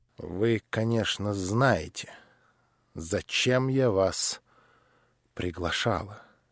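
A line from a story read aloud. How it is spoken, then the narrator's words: Very quiet, halting. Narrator (Russian): выговорила наконец, но очень тихо и даже остановившись раза два на этой коротенькой фразе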